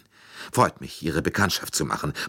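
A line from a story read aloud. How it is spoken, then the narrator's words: Murmur. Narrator (German): murmelte Mrs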